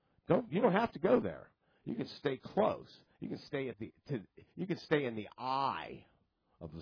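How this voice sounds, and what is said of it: Usual voice. Nothing is said of it.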